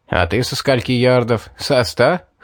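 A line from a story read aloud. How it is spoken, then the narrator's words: Chuckling. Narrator (Russian): хохотнул он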